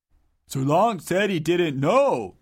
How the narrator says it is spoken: grumbled Dungo, contradicting Bowler

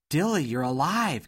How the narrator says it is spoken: gasped Dot, overjoyed

